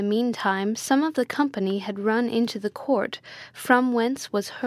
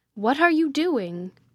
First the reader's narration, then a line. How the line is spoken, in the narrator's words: cried Manfred wrathfully